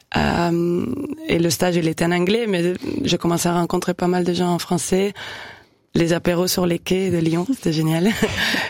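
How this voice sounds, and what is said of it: Fluent French with foreign accent. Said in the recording (French): “l'accent, il part pas. Hein. Là, je m'entends un peu plus que d'habitude ... j'entends plus l'accent que d'habitude”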